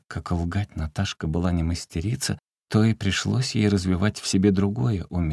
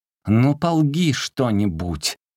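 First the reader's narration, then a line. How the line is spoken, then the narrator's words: Young lady shouting. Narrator (Russian): барышня кричала иногда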